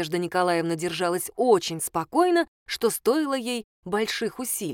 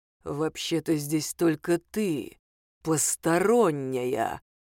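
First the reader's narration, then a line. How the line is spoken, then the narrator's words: Menacing drawl. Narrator (Russian): угрожающе протянул карлик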